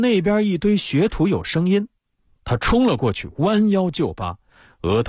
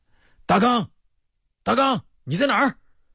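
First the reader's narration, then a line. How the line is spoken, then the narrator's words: Shouting. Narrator (Chinese): 范少山喊着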